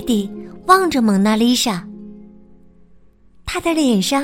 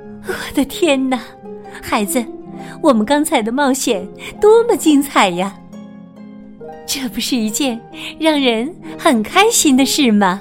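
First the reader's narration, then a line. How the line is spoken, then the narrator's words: Happy laughing. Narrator (Chinese): 两个人都开心的笑了起来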